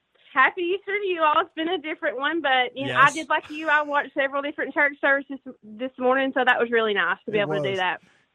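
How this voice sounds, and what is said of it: New York-sounding accent. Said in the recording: “I'd never know you're from Tennessee from your accent. I thought you're from New York.”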